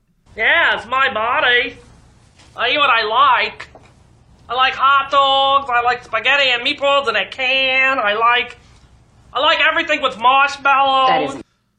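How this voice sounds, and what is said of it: Spot-on impression of Vinny Paulino. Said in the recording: “She does do a Vinny impression that I thought was spot on... This is Rosie O'Donnell doing Vinny Paulino... It's pretty spot on.”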